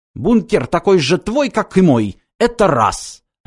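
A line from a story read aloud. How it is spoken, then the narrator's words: Snapping retort. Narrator (Russian): огрызнулся Лацис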